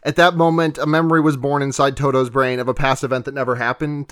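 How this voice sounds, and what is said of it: Dramatic narrator voice. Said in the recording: “narrator voice.”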